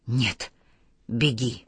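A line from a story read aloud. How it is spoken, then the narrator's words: Hoarse rasp. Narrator (Russian): прохрипел Микаэль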